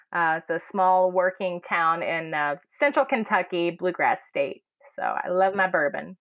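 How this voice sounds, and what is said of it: Kentucky accent. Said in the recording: “Where is your accent from? ... I am from Campbellsville, Kentucky”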